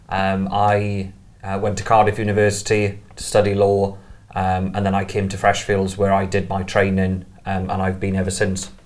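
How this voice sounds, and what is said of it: South Welsh accent. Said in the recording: “this is an unusual accent for the podcast ... I'm from South Wales ... I didn't learn this accent at RADA”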